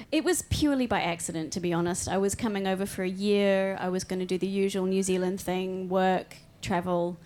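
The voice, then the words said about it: Hybrid accent. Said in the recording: “hence the hybrid accent”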